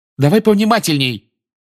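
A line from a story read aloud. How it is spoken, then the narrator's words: Angry shout. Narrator (Russian): сердито крикнула Анжелина вслед Рону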